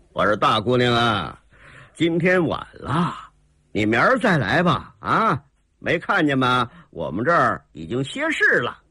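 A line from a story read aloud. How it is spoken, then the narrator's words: Coughing chuckling old man. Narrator (Chinese): 刘二星咳嗽一声 嘿嘿一笑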